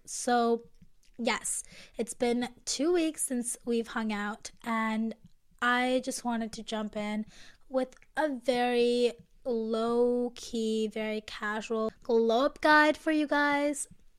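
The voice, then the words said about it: Congested, nasal voice. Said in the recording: “I'm still very congested. I can feel it in my nose. I can hear it in my voice.”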